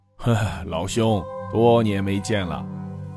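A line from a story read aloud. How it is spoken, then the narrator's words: Old man sighing. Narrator (Chinese): 老伯不由得叹道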